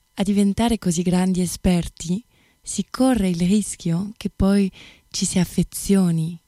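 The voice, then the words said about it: French accent in Italian. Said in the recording (Italian): “voce meravigliosa, ma poi questo accento francese, stupendo”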